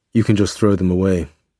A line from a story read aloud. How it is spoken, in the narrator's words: he said